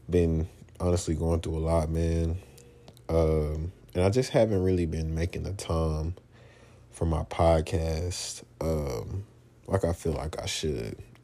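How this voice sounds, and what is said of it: Voice sounds a bit sick. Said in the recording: “Excuse my voice, by the way. I'm a little under the weather”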